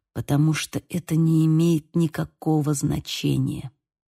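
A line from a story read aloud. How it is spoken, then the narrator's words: Whispered. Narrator (Russian): прошептал Бейл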